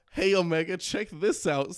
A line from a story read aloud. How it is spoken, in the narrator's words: said Shadow laughing